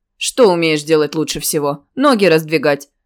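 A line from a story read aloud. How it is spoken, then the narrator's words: Short mocking laugh. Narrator (Russian): Он коротко хохотнул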